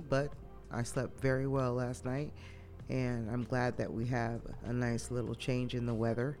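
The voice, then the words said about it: Stuffy, husky sick voice. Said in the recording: “A little stuffy ... I got my sexy voice on because, you know, whenever I'm sick, I sound sexy.”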